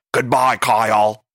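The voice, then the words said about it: Imitates another person's voice. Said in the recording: “a good impression of Ken ... It's a terrible impression.”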